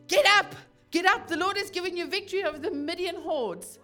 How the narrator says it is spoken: he shouted

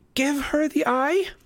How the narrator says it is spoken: Annabeth screamed

